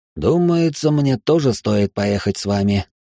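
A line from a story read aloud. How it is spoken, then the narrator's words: Gloomy. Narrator (Russian): мрачно промолвил Маркиз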